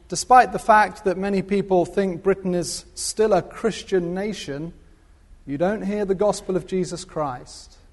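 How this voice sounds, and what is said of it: British English accent. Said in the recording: “you could probably tell from the accent where I'm from ... born and bred in Britain”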